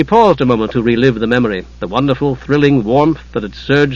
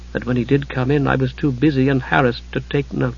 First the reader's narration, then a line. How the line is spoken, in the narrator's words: she muttered